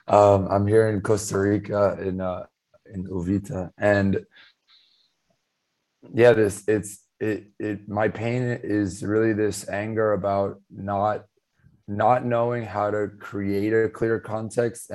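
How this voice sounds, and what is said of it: Strained, barely functional voice. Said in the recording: “my voice is not functional”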